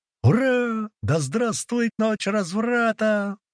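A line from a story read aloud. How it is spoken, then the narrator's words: Joyful yelling. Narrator (Russian): радостно завопила Дуська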